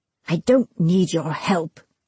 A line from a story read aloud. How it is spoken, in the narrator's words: growled